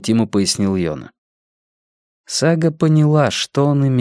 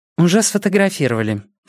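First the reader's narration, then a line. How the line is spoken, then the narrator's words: Dry reply. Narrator (Russian): сухо ответила Сага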